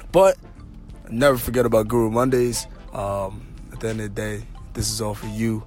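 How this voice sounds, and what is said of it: Slightly hoarse, strained voice. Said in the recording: “My voice is a little hoarse right now ... definitely strained the vocal cords”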